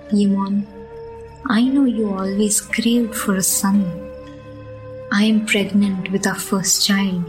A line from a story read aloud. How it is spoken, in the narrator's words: she said